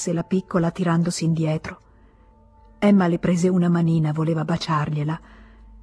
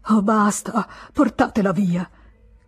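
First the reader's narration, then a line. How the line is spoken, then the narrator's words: Sobbing shout. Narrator (Italian): gridò Charles, che singhiozzava nell'alcova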